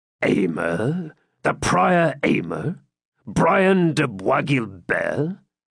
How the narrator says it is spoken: muttered Cedric

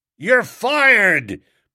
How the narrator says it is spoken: bellowed old Blumenfield, swelling a good bit more

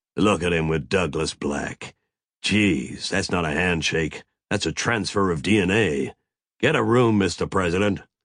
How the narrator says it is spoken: Mac grunted

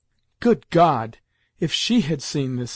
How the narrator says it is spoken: exclaimed Grandmamma, wiping away her tears

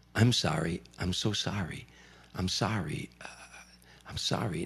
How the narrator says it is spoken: he started whispering into the microphone

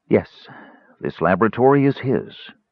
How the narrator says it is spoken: Raceland replied coolly

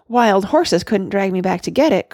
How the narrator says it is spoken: cried Randy

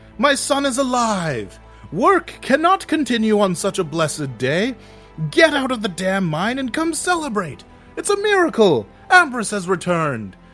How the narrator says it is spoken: begins to shout

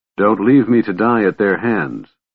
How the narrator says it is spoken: Caramon said calmly, asking a simple favor

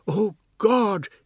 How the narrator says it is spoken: cried

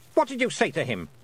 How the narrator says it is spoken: snapped the Queen

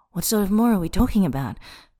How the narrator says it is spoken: He pants

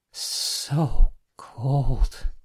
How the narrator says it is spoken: she cried softly

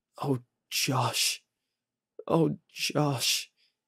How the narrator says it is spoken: sobbed

